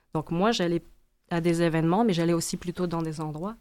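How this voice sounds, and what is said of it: Immigrant's foreign accent in French. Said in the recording (French): “Puis moi, je suis immigrante. Vous entendez mon accent. Je pense que je ne l'ai pas perdu trop, là.”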